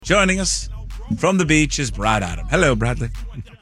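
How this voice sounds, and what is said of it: British golf commentator accent. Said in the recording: “Did you kind of morph into a like a British golf accent? ... That was good.”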